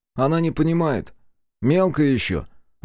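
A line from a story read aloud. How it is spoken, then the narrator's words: Sighing, older creature. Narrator (Russian): вздохнул облад постарше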